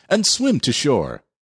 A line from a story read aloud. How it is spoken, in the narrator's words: cried Fritz